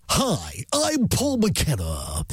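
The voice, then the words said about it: Imitated unusual DJ radio voice. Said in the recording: “With his unusual DJ voice ... Yeah, amazing voice, isn't he?”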